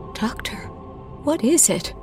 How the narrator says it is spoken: whispered

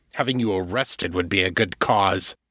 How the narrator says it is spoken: Janus growled

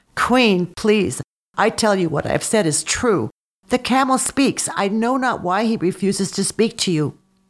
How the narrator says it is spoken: Dropping to his knees, the beggar cried

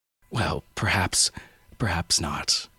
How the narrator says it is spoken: I said

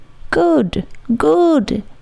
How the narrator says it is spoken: he cried in high glee

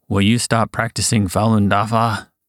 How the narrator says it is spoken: one guard asked fiercely

